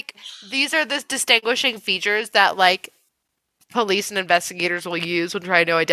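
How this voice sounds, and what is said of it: Usual voice. Nothing is said of it.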